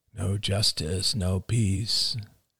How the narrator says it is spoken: murmured Arlo

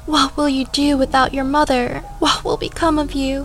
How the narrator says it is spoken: One of his aunts, a heavyset woman, began to wail

